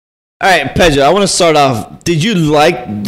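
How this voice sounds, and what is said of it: Usual voice. Nothing is said of it.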